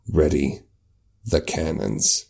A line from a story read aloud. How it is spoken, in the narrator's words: The captain, like, quietly to Kareen says